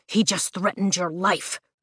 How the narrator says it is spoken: Zayden growls

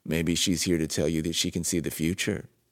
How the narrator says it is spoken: said Magnus

